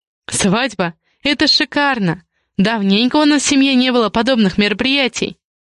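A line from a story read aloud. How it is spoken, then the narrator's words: Laughing aunt. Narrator (Russian): Рассмеялась тетушка Веста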